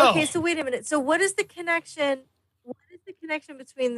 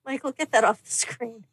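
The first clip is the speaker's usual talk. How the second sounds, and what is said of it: Stern scolding teacher voice. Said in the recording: “I heard her teacher voice. ... That was absolutely heard, my teacher voice.”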